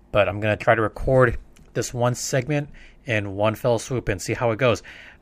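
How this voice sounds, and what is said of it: Slightly off, coughing-affected voice. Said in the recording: “I've been coughing quite a bit ... my voice is a little bit off”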